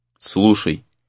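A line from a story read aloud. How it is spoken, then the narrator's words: Stunned mutter. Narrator (Russian): пробормотал ошеломленный Рэй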